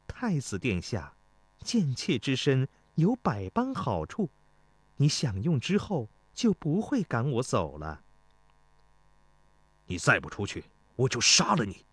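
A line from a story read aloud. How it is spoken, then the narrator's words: Seductive giggling woman. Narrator (Chinese): 美女 一脸媚态地嬉笑道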